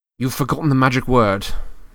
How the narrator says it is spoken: said Harry irritably

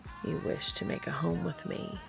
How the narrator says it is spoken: Castiel says softly

